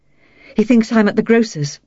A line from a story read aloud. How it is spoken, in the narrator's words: she said breathlessly